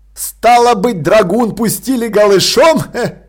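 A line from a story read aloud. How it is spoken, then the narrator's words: Giggling. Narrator (Russian): Он хихикнул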